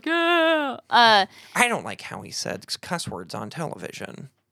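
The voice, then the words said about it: Imitates a disapproving complainer. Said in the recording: “that's my imitation of everyone that would have problems”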